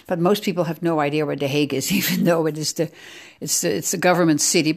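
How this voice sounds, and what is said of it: Slight Dutch accent. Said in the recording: “I am native Dutch... maybe you heard a little bit of an accent”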